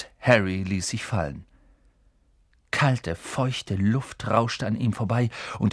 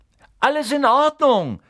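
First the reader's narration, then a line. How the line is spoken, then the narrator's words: Calling upward. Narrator (German): rief er nach oben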